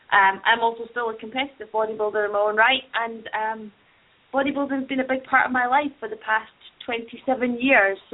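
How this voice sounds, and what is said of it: Scottish accent. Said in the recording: “I'm loving your accent. ... is in Scotland right now”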